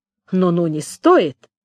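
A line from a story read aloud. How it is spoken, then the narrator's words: Grumbled. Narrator (Russian): пробурчал я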